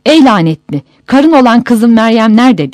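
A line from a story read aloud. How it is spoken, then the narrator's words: Crying out. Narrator (Turkish): diye haykırmış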